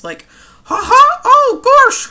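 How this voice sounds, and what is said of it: Exaggerated high-pitched Mickey Mouse voice. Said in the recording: “your most exaggeratedly, stupidly high Mickey Mouse voice”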